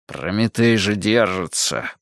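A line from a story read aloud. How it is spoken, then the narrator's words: Through gritted teeth. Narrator (Russian): проскрипел зубами Пересолин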